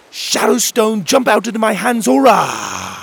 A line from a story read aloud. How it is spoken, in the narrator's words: shouted